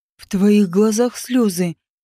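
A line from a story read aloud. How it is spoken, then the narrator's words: Menacing growl. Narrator (Russian): грозно прорычал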